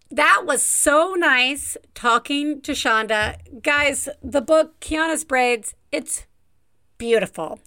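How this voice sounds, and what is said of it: Southern Alabama accent. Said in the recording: “there's nothing that brings out my accent like talking to somebody from my hometown of Tuscaloosa, Alabama”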